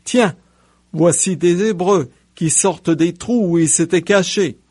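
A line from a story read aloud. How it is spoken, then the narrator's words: Group exclaiming. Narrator (French): hommes du poste des Philistins, ceux-ci s'écrièrent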